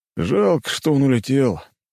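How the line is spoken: Sighing. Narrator (Russian): вздохнул один из офицеров

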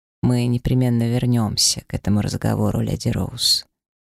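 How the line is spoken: Unexpectedly soft tone. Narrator (Russian): неожиданно мягким тоном произнес инквизитор

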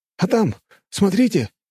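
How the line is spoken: Exclaimed. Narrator (Russian): воскликнул другой оператор

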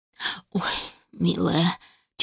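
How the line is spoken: Heavy sigh. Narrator (Russian): тяжело вздохнула матушка

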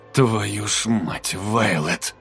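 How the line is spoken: Muttered. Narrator (Russian): пробормотал Дайн

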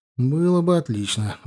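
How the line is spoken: Sighed regretfully. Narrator (Russian): вздохнул с сожалением я

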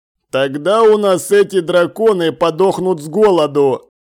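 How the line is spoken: Smirking snort. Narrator (Russian): хмыкнул убийца

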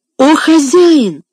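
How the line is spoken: Pleading exclamation. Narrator (Russian): воскликнул Том, с мольбой

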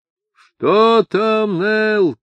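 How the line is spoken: Thunderous shout over wind. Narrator (Russian): крикнул Ишмаэл громовым голосом, перекрывшим свист ветра

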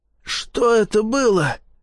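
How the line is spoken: Wheezing. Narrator (Russian): просипел Напалм

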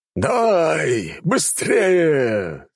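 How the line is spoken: Delighted shout. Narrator (Russian): с нескрываемым восторгом выкрикнул барон

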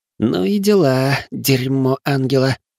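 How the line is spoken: Tired. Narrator (Russian): устало проговорила она

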